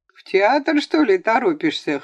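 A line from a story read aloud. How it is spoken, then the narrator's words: Laughing voice in crowd. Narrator (Russian): хохотнули в толпе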